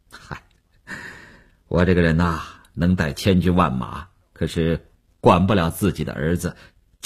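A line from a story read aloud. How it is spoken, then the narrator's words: Wry, awkward, self-mocking. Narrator (Chinese): 吴长天也笑了笑，几分安慰，几分尴尬，自嘲地说道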